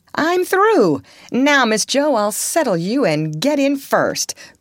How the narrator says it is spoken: cried the young gentleman

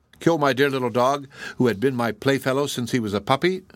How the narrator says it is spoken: exclaimed he

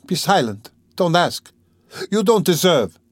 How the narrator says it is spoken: she cried suddenly, looking sternly and wrathfully at him

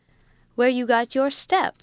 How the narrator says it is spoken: said George with a laugh

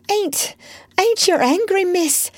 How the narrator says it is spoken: She gasped

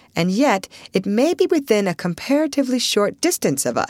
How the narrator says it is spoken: said Russ, as cheerfully as he could

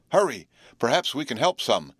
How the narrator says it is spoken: exclaimed good-hearted Jerry

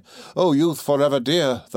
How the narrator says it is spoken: the monarch cried

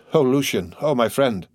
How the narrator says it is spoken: the lady exclaimed

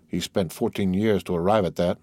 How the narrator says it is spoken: muttered the Count

